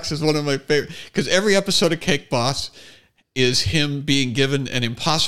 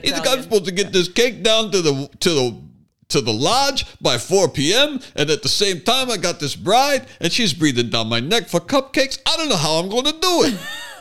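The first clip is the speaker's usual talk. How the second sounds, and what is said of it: Put-on Brooklyn Italian-American accent. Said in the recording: “He's got that Brooklyn accent. He goes, Italian.”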